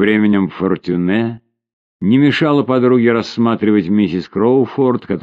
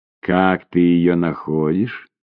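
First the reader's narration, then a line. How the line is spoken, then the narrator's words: Quiet question. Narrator (Russian): тихо спросила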